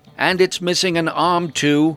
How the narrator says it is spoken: I called out to Rowen

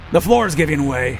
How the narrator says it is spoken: Kinder shouted over the sound of splintering timbers

